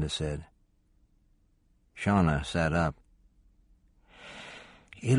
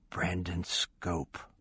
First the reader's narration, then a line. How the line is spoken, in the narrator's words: Shauna said softly